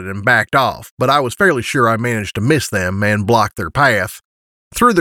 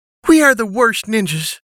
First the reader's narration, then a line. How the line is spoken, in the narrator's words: Serenity said with a sigh